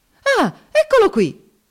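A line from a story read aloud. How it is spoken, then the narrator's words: Indignant exclamation. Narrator (Italian): esclamò indignato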